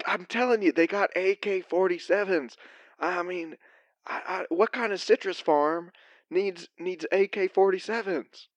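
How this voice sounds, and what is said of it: Whispering quietly. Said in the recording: “Why are you whispering? Speak up.”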